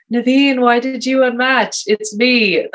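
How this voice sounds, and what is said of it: Sleepy, dulcet Boston-accented impression. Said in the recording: “my best Ben Affleck impression ... Sleepy, dulcet Boston tones.”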